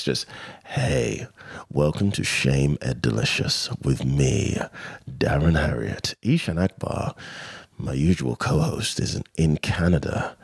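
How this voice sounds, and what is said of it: Sexy low Midlands voice. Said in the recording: “my sexy voice ... my sexy Midlands tones”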